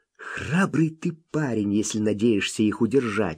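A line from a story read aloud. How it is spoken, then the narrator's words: Child whispering reply. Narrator (Russian): шепнул в ответ малыш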